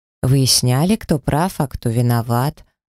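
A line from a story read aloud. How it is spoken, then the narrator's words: Weary sigh. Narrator (Russian): вздохнула, стараясь забыть еще один странный вечер в моей жизни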